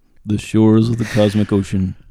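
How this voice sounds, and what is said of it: Imitates another person's voice. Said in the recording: “I do a great Carl Sagan impersonation.”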